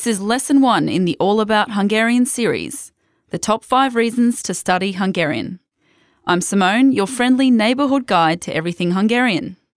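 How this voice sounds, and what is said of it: Australian accent. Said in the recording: “You can probably tell from my Australian accent.”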